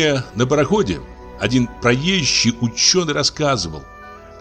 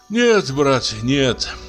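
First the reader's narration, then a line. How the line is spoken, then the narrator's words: Sighing. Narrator (Russian): вздохнул Лаевский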